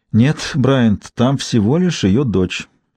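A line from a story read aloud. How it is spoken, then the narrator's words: Sighing. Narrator (Russian): вздохнула Ким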